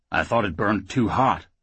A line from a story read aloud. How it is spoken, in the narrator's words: Oates grumbled